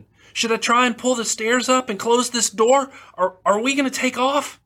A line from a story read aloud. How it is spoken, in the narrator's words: screamed